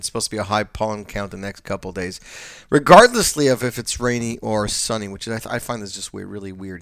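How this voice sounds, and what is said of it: Congested, allergy-affected voice. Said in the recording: “as you guys can hear in my voice, is the allergies are up”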